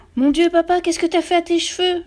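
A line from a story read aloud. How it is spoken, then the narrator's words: Screamed by son. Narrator (French): hurla le fils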